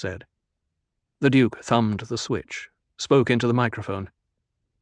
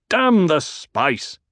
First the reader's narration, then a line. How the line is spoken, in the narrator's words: The Duke barked